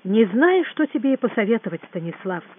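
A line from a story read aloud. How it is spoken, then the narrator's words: Plain. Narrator (Russian): сказал Гуров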